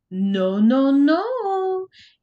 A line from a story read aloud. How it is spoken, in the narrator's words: in a mocking voice